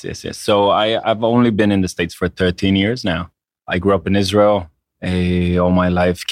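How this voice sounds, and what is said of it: Slight foreign accent. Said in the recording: “do I notice a slight accent?”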